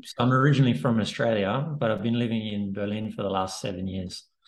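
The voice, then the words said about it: Australian-accented English. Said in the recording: “I could tell by the accent. I was like, yeah, that doesn't sound German.”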